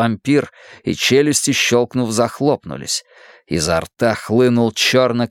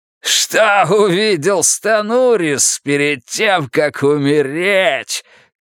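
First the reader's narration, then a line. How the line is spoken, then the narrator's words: Shouted with laughter. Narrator (Russian): крикнул вампир, смеясь кровавой дырой ртом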